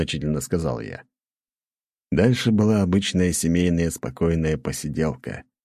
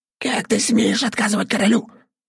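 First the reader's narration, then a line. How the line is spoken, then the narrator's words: Quiet squeak in ear. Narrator (Russian): тихо пропищал голубь мне в ухо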